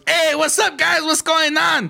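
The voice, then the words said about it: Put-on East Los Angeles accent. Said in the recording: “every East Los accent”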